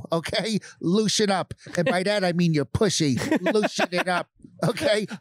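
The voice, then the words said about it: Spot-on Rich Voss impression. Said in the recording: “Rich Voss ... do the voice ... I mean, it is perfect.”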